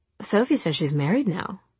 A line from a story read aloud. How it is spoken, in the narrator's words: she said